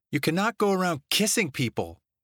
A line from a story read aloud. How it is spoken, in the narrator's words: she blurted out